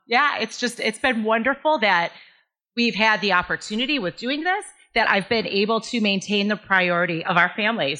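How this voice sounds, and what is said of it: Teary, emotional voice. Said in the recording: “I'm getting teary ... Oh my gosh, I'm actually tearing up.”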